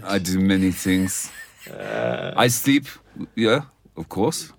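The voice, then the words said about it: Put-on German-sounding accent. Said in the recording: “You're sounding German now.”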